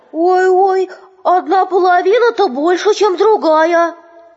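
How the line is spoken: Children shouting. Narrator (Russian): медвежата сразу закричали

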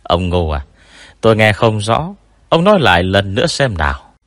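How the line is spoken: Sneering. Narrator (Vietnamese): Tôn Mập cười nhạt bảo

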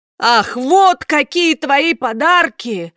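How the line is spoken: Hurt shout. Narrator (Russian): обиженно крикнул Карло

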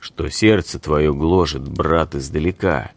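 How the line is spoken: Calm shaman asking. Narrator (Russian): спокойно спросил шаман

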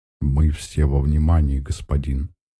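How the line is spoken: Polite low soothing chest voice. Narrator (Russian): учтиво, низким, грудным, успокаивающим голосом говорит невысоклик

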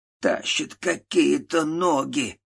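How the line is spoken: Old man's hoarse wheeze. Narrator (Russian): прохрипел дед

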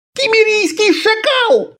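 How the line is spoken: Shrieking. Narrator (Russian): завизжал Аббас

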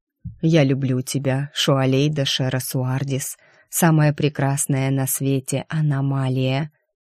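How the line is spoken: Low velvety voice. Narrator (Russian): низким бархатным голосом сказал Дайм

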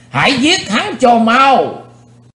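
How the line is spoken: Crowd roaring in unison. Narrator (Vietnamese): Quần hùng đồng thanh gầm thét chấn động cả chân núi

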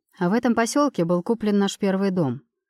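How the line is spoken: Fairly calm narrating voice. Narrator (Russian): рассказывает довольно спокойным голосом

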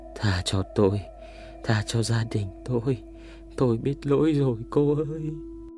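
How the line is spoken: Continuous muttering. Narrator (Vietnamese): miệng vẫn không ngừng lẩm bẩm

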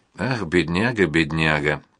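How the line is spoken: Mutter. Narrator (Russian): пробормотала она

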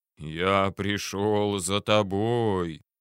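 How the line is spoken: Sepulchral voice. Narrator (Russian): за могильным голосом произнес

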